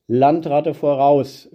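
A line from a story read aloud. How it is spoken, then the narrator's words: Calling out. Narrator (German): rief jemand auf der Straße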